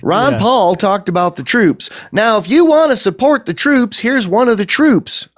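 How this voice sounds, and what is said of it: Put-on Southern US accent. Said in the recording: “I'm sorry, they didn't have Southern accents. I got to stop doing that”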